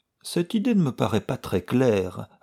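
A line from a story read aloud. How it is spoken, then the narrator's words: Thoughtful. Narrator (French): répondit Sheldon d'un ton pensif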